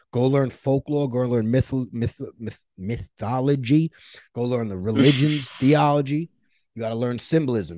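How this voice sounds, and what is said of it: Strong New York accent. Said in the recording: “I'm terrible pronouncing things because this fucking New York accent ... it sounds like a fucking idiot screaming on 42nd Street sometimes”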